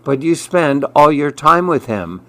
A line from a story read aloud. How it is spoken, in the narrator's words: Sally sighed back